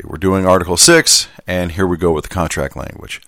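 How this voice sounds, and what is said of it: Southern gentleman accent. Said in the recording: “back to the Southern gentleman”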